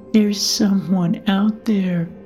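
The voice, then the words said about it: Sleepy voice. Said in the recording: “he said in a sleepy voice.”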